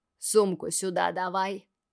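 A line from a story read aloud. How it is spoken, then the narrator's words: Menacing growl. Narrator (Russian): грозно рычит Грэм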